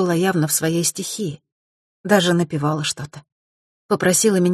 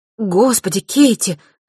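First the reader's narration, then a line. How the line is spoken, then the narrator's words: Sudden cry. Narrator (Russian): вдруг вскрикнула Эмма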